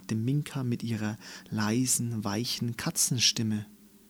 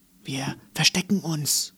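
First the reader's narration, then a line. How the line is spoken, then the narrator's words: Whisper. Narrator (German): flüsterte sie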